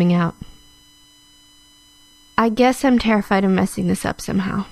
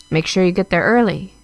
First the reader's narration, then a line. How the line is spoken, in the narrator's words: Anna had said